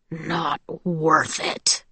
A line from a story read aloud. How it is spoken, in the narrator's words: he said with a growl